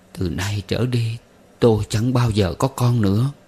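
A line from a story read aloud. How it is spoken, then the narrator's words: Moaning. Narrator (Vietnamese): Chị rên rỉ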